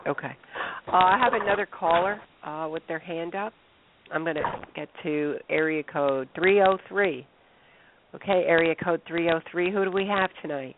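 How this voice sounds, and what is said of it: Congested, sick-sounding voice. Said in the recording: “Well, I have a cold. Doing a health show with a cold.”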